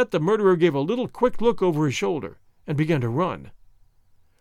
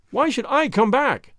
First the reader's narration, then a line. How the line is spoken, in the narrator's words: I cried